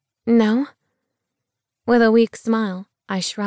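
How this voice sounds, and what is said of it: Usual voice. Nothing is said of it.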